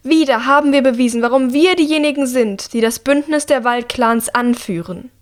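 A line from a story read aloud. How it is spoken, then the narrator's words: Regent calling out. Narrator (German): ruft die Regentin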